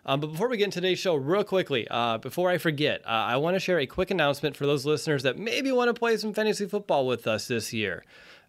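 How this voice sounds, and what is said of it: Sick-sounding, slightly slow voice. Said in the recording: “I've been dealing with an illness all week, uh, running a fever here today. So if I'm a little slow in my delivery or my voice isn't what you're expecting it to be. ... I've been battling some respiratory stuff.”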